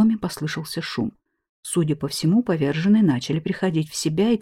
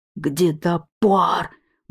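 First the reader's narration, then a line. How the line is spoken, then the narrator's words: Loud yell. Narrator (Russian): громко завопил один из них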